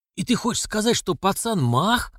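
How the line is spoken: Excited hoarse whisper. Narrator (Russian): взволнованный хриплый шепот

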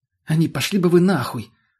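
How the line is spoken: Snapping back. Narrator (Russian): огрызнулся тот

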